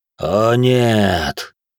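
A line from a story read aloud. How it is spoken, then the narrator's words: Tired sigh. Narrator (Russian): устало вздохнул владыка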